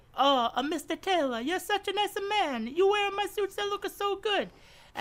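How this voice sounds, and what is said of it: Stereotypical Italian accent. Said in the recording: “When I was in Italy ... Please stop using such a stereotypical accent.”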